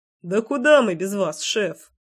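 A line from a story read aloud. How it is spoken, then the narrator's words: Snorting. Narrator (Russian): хмыкнул Никита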